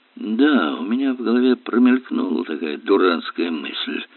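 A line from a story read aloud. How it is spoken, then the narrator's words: Mutter. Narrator (Russian): пробормотал Эллери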